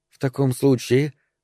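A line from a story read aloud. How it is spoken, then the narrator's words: Low voice. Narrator (Russian): заговорила она вполголоса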